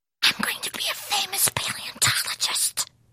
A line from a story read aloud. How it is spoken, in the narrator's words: whispered Skippy John Jones